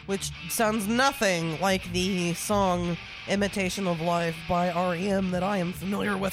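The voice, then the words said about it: Voice giving out, hoarse. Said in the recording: “I'm losing my voice all of a sudden.”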